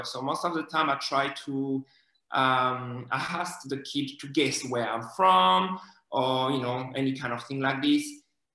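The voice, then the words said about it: French accent in English. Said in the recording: “I love your accent. ... Oh my God, I love your accent. I've been watching Emily in Paris and I love it.”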